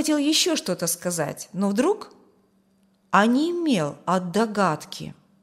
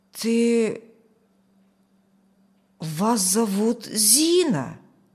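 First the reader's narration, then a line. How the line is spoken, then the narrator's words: Strained, nearly affirmative. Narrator (Russian): Почти утвердительно выдавил он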